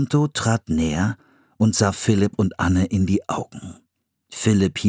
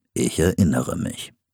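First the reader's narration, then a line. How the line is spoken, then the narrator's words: Calm. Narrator (German): sagte ruhig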